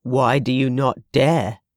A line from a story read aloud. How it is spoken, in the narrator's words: Wentworth demanded gruffly